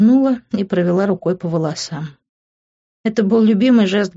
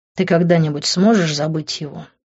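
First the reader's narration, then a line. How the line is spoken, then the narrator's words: Angry question. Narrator (Russian): зло спросил он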